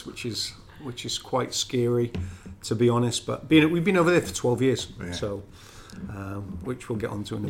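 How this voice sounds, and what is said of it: Welsh accent. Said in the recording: “I'll never lose my Welsh accent, don't worry about that.”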